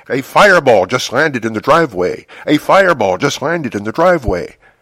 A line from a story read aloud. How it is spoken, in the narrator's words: shout